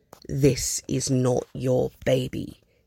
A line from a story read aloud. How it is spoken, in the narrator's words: he says sternly